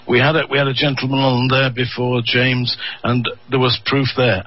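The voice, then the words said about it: Lancashire Manchester English accent. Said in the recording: “Where on earth is that strange accent from?" It's from a place called Lancashire, and I spent my formative years in the city of Manchester ... that's where this accent is from”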